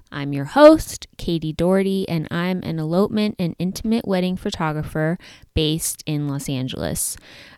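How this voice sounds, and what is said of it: Slightly altered, funny-sounding speech. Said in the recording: “my voice is sounding a little different than usual, it's because I just got adult braces... still getting used to like how to talk with this retainer and rubber bands in my mouth... I might be talking kind of funny”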